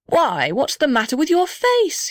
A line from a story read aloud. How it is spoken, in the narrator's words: cried